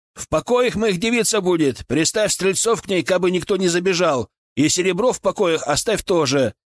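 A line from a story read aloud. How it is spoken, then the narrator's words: Shouted. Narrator (Russian): выкрикнул я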